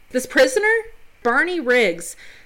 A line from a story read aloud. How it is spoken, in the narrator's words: Thomas Gates yells at Riggs